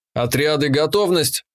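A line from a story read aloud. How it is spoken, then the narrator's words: Barking. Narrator (Russian): рявкнул я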